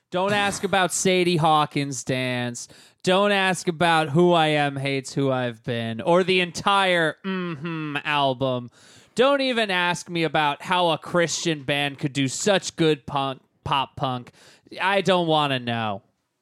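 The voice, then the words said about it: Impression of another person's spiel. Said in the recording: “you do such a good impression of me”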